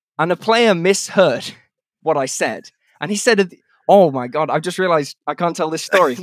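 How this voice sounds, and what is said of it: Usual voice. Nothing is said of it.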